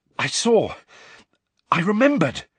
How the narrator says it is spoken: Harry panted

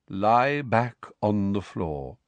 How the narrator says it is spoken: said Firenze in his calm voice

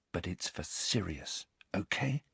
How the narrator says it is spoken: without knowing exactly why, whispering

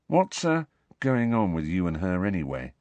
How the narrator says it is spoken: Ron asked quietly

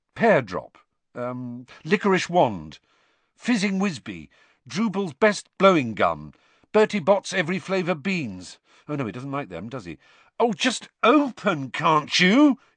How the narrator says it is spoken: he said angrily

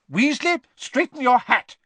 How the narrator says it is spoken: Professor McGonagall snapped

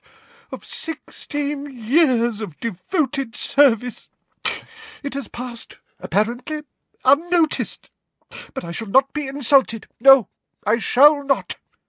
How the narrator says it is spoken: choked

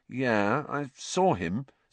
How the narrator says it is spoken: said Harry, slowly

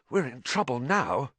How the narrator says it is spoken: he said hoarsely

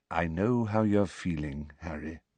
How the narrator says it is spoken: said Dumbledore very quietly

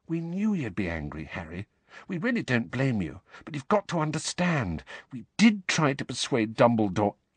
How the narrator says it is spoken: Hermione said quietly

